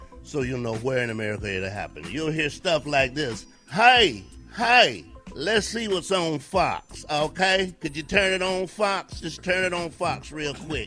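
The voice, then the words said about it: Put-on Southern American accent. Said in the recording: “in my southern voice”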